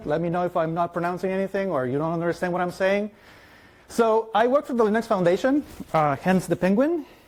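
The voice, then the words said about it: Mexican Spanish accent, fast speech. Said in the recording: “I speak too fast ... I'm Mexican. My primary language is Spanish, so I have a hard accent.”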